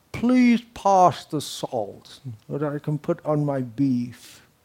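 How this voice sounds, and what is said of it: Imitated high-class British accent. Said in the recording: “especially if you speak in a British accent, which I'm trying to imitate ... in the high class British accent, which I'm again trying to imitate ... that's considered very high class to speak in a British accent”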